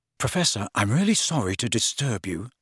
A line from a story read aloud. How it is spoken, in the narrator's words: said Harry as quietly as possible